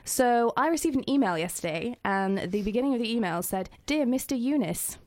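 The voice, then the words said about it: Low, husky voice from a cold. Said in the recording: “I need to apologise for my voice because I've got a little bit of a cold, so I feel like I'm about an octave lower than I should be. I feel like a baritone at the moment”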